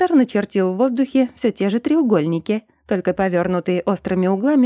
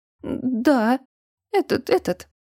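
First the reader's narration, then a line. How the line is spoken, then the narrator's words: Stammering reply. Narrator (Russian): заикаясь, ответила моя сестра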